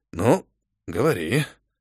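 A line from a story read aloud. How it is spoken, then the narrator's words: Sighing. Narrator (Russian): вздохнул охранник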